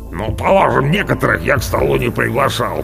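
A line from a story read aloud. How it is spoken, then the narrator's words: Angry grumbling. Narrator (Russian): проворчал Орвар, большое брюхо, зло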